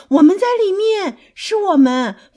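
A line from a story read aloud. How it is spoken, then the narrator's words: Calling out together. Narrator (Chinese): 弗洛格和小熊一起叫了，说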